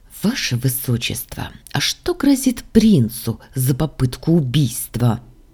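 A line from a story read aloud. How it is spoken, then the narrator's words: Hissed through teeth, shaky. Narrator (Russian): Сквозь зубы прошипела я, стараясь унять дрожь в руках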